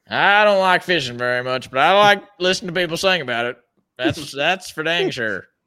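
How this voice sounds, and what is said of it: Exaggerated country twang accent. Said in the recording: “He's got the whole accent down. It actually sounds really good. ... I kind of twang it up a little bit”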